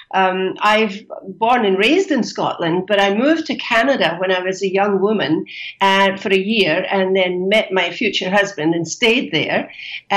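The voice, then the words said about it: Scottish accent. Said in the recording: “that's not an Argentinian accent, is it? ... It's not, no. It's a Scottish accent”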